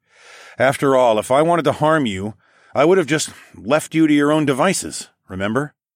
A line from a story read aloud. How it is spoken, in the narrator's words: The young Ram Lord sighed